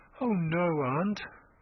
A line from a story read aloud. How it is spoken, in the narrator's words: murmured Thomason